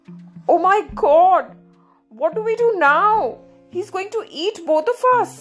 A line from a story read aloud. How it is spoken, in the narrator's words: cried the man